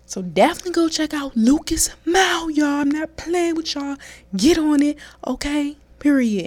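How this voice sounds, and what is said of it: DMV accent. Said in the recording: “my little DMV accent just came out”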